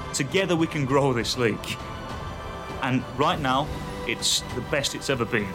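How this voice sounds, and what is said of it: British accent, grand speech-like delivery. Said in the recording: “that was like Winston Churchill ... the British accent really helped carry it”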